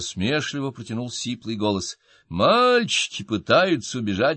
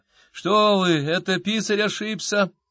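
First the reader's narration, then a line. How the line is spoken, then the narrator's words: Whimpering. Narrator (Russian): прохныкал один из гонцов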